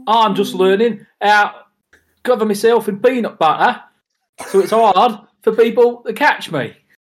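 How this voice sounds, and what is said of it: Failed Cockney accent sounding Australian. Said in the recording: “Why are you Steve Irwin? ... I'm not very good at holding a Cockney accent down. ... What part of Australia is Danny Dyer from?”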